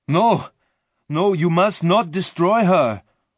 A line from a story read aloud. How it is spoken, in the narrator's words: the monster cried